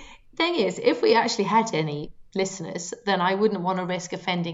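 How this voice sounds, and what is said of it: Usual voice. Nothing is said of it.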